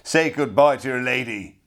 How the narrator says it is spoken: he roared

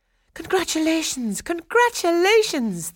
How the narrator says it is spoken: they cried

